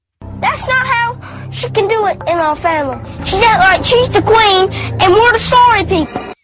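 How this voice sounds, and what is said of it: Noticeable regional accent. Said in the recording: “you can hear the accent. That's clearly Kim Mulkey.”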